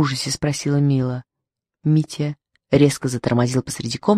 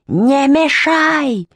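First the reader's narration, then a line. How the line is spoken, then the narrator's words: Sudden yell, badger. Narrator (Russian): заорал вдруг барсук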